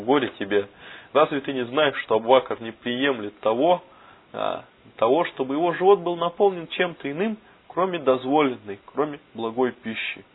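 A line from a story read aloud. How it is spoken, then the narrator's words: Laughing. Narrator (Russian): рассмеявшись, сказал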